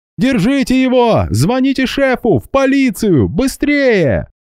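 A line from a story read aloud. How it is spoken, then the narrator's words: Yelling. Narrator (Russian): Гера заорал кому-то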